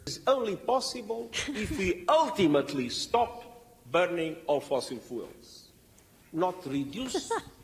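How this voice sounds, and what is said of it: Strong accent, hard to understand. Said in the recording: “trying my best to understand through the accent, which is like fine on most words ... real bad on like the important bits”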